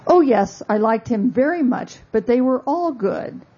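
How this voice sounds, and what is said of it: Weak attempt at British accent. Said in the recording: “I can't do a British accent, I'm sorry.”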